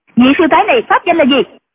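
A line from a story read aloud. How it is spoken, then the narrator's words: Woman shouting. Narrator (Vietnamese): hoàng y mỹ nữ quát lên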